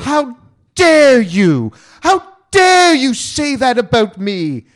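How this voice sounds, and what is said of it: Greta Thunberg impression. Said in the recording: “I'm working on my Greta Thunberg. ... I'm trying to do my impersonation.”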